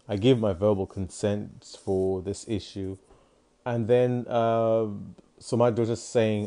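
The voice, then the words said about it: Woman with a deep voice. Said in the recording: “my mom's got a deep voice,”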